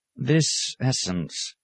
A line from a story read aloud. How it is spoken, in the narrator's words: murmured